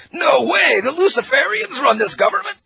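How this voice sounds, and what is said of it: Incredulous TV documentary extra voice. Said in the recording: “I sound like one of the extras in the Mark Dice History Channel special”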